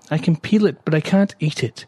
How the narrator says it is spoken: said miserably

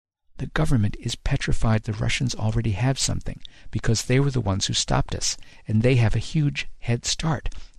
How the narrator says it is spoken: he whispered so low I could barely hear him even with our heads together

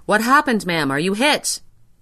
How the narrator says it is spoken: Shelter police, bending over me, cried

